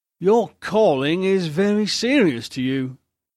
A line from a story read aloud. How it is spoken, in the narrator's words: said Vincent lazily